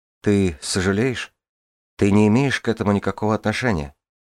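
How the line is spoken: Plain. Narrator (Russian): ответила Джанель

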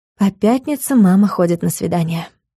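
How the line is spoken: Sigh. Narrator (Russian): вздохнула Юля

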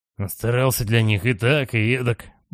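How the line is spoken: Muttering. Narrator (Russian): бормочет Лэри

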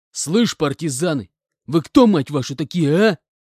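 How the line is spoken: Angry growl. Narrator (Russian): Злобно рыкнул я

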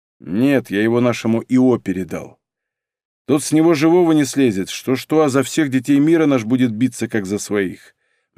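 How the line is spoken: Gloomy. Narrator (Russian): мрачно сказал Игорь

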